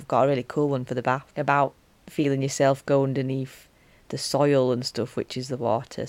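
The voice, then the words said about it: Broad Yorkshire accent. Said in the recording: “this broad Yorkshire Wakefield accent”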